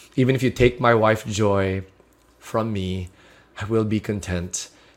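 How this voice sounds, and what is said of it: Emotional, choked-up voice. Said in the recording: “I'm getting emotional now.”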